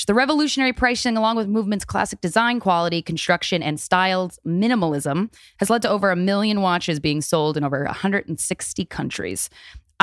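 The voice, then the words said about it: Reading ad copy in weird voice. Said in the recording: “I read that because it's part of the copy. That's why you're doing a weird voice.”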